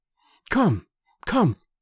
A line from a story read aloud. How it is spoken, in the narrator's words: she cried breathlessly